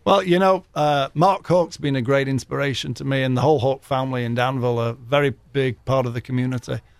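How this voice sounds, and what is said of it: Noticeable regional accent. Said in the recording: “his beautiful accent”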